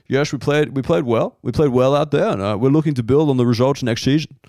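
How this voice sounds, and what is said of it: Put-on Dutch accent, football coach. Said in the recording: “all I kind of got is like the Dutch coach after the game ... That's hundred percent of my accent work right there. It's like Pim Verbeek ... It becomes Sean Connery if I try to do it for too long”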